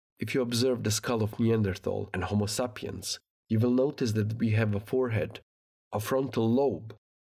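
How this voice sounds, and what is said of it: Non-native English accent. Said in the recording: “my English with a strange accent”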